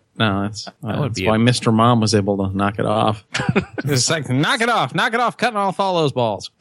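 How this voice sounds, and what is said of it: Silly put-on character voice. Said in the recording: “That's my Mr. Mom voice.”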